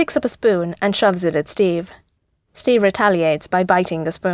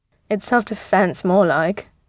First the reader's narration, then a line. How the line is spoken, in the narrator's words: Bucky snorts